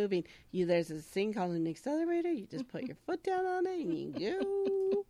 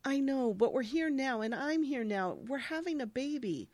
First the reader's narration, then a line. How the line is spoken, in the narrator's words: he happily says